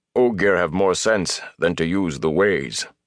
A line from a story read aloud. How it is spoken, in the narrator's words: Loyal growled